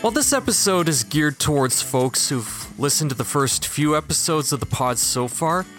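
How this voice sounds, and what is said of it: Somewhat damaged, unclear voice. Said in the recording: “my voice has been messed up a little bit by the whole COVID episode ... hopefully soon I'll have a much cleaner set of vocal cords”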